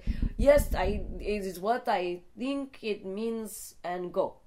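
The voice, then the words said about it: Put-on Russian accent. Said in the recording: “which is my Russian accent.”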